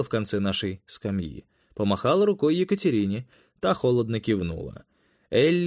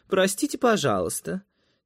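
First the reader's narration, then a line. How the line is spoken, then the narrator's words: Fake-polite teenage voice. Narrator (Russian): тем притворно вежливым тинейджерским голоском, что приводит взрослых в бешенство, ответила Элли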